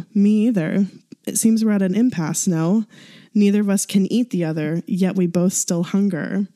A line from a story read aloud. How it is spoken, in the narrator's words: chuckled